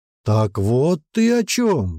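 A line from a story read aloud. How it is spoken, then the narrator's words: Exclaimed. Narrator (Russian): воскликнул принц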